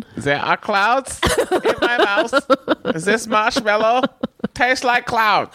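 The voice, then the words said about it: Put-on accent sounding German. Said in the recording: “Now you sound German. ... Yeah, now you sound German. ... German, I apologize.”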